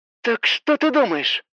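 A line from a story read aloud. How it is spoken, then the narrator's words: Through gritted teeth. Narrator (Russian): Сквозь зубы поинтересовалась Хоук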